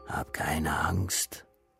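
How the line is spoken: Whisper. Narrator (German): Flüsterton

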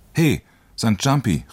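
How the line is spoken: Loud call. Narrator (German): rief er laut

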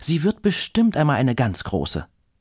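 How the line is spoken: Calling out. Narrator (German): ruft

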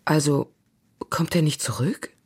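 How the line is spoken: Soft female question. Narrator (German): fragte sie leise

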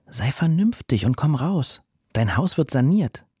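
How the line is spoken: Gentle. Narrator (German): Er sagte sanft

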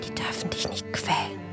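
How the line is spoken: Whisper. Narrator (German): habe ich geflüstert

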